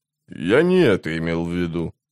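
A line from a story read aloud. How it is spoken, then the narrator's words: Grumbling. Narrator (Russian): проворчал он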